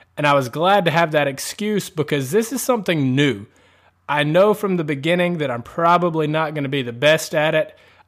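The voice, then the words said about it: Southern American accent. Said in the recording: “I have a southern accent”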